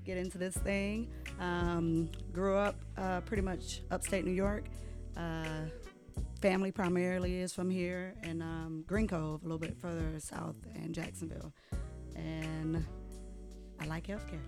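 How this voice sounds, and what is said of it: Slight accent. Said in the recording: “you're a little bit of an accent.”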